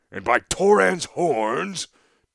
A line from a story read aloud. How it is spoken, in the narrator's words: Tongarth roared